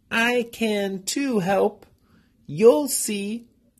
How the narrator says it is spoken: she cried

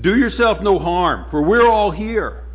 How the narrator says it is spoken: Paul cried with a loud voice, saying

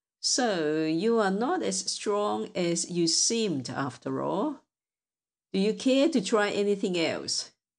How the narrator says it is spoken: said the king of the giants in a mocking tone

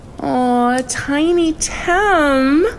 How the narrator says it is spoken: April cooed

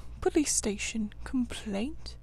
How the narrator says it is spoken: murmured Toad dreamily

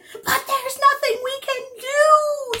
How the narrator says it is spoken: shrieked

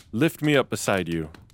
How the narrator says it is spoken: There he sat and cried

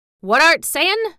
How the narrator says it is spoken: he asked, rather testily, because he did not want his attention distracted

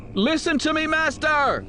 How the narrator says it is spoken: shouted

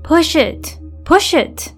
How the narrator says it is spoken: wailed a woman's voice

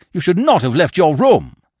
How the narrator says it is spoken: I cried reproachfully

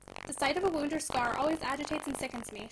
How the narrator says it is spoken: she said

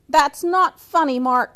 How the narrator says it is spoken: he shouted

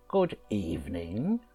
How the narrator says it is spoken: she croaked, pretending to be quite friendly

